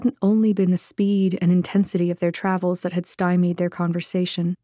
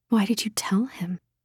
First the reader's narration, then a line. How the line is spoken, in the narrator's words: An angry little voice whispered inside her head